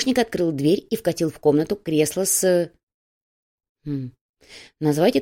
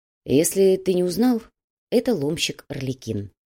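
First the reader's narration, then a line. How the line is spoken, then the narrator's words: Even, level voice. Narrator (Russian): ровным голосом поведал Макс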